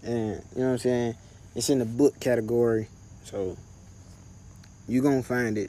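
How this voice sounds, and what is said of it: Frustrated, country accent, slurred words. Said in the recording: “hear the frustration in my voice ... I'm trying to talk proper, but I'm country as hell and my words be slurred”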